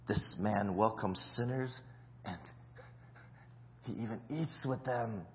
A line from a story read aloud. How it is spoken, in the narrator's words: the Pharisees and the teachers of the law muttered